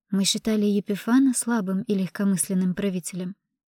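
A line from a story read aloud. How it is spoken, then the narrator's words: Plain. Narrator (Russian): сказала я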